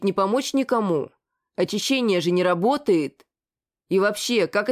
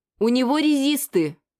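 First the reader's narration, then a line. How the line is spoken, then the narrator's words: Exclaimed. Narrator (Russian): Воскликнула Ася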